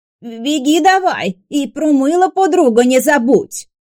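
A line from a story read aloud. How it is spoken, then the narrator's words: Shouted after someone. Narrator (Russian): крикнула ей вдогонку Марфа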